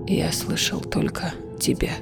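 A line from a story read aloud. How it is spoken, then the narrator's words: Hoarse rasp. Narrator (Russian): прохрипел Гавин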